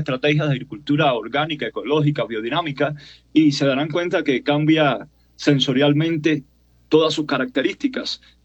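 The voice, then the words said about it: Cuban Spanish accent. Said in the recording (Spanish): “¿le puedo preguntar por su acento, su nacionalidad? ... Yo soy cubano de nacimiento, colombiano de corazón. ... Tengo 20 años acá.”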